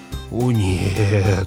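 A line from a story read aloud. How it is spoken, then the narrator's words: Groaning. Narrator (Russian): простонал Грегор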